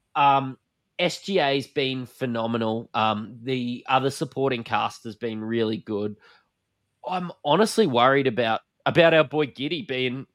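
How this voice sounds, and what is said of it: Broad Australian bogan accent. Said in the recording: “We're from Australia, if you can't tell by my bogan accent”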